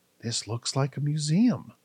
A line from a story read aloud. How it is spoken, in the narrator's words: Kai whispered to himself